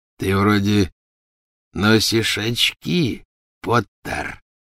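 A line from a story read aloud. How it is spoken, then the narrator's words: Breathy exhale. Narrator (Russian): выдохнул Фенрир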